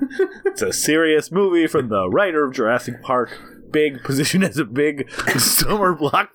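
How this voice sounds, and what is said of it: Usual voice. Nothing is said of it.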